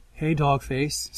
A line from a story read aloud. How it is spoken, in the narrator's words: Sandra says, her voice soft